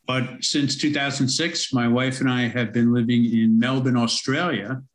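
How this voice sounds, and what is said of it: New York American accent. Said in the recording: “I'm originally from America, from most of my life in New York City, as you can probably tell from my accent.”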